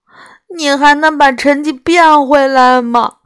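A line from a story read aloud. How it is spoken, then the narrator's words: Glum, near tears. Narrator (Chinese): 我哭丧着脸说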